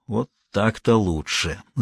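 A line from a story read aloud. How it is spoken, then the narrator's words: Gloating mutter. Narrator (Russian): злорадно пробормотал Тренев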